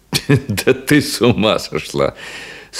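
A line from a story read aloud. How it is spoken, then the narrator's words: Laughing. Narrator (Russian): смеясь, проговорил он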